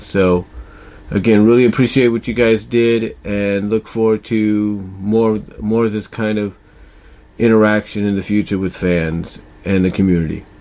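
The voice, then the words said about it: Tired, rambling voice. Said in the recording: “I sound like I'm tired and I'm rambling ... why I sound a little tired.”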